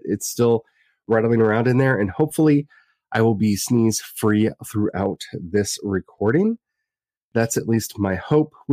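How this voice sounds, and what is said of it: Congested voice from a cold. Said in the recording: “apologize for my voice. ... I still have the cold.”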